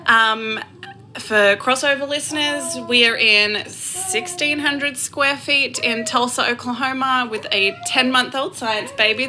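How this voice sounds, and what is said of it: Australian accent. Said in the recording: “don't let the accent confuse you. I'm not a Kiwi ... I am an Australian”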